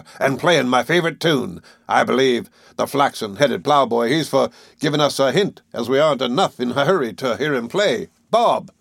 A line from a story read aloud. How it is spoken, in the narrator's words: called out, at the other end of the room